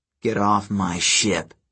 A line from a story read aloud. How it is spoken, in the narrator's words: Percy growled